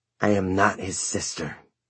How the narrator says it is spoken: she hissed

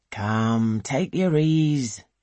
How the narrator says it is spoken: he sighs

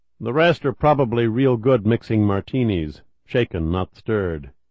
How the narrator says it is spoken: Kelly said evenly

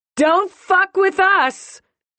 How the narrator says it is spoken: she shouts up to a rabid sky

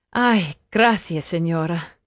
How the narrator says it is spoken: Nayeli sighed

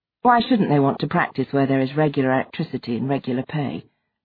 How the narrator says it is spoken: Mark asked, his tone flat

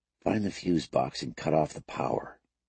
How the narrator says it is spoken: whispered

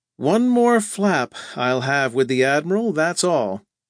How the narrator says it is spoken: Heaving a sigh that turned into a groan, Jocko Larkin said

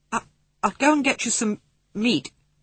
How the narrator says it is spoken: he said in a choking voice

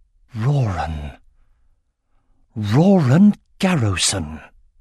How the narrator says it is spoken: Jode breathed

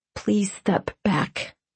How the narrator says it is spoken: I said quietly

